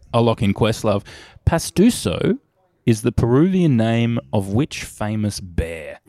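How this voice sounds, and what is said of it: Australian accent. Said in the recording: “Sorry about the Australian accent.”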